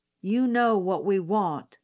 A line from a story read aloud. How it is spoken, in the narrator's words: another man said